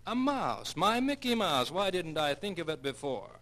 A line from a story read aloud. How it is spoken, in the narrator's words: he excitedly exclaimed